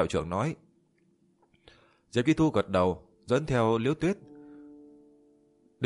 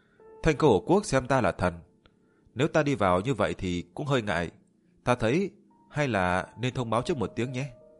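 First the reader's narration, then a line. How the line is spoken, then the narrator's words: Smiling. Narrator (Vietnamese): Liễu Tuyết mỉm cười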